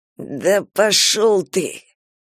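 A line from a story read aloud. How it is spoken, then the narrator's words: Through gritted teeth. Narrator (Russian): Он процедил сквозь зубы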